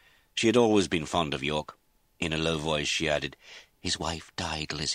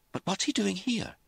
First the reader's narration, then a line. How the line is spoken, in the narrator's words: Lizzie said anxiously